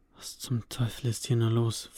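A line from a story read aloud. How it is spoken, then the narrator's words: Quiet wondering question. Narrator (German): fragte sich Cody leise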